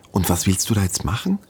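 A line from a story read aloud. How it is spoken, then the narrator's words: Anxious question. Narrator (German): fragt Marien ängstlich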